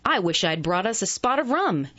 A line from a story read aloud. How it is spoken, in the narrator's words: cried enthusiastically